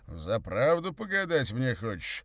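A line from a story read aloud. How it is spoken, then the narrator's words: Slightly mocking question. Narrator (Russian): переспросил он чуть насмешливо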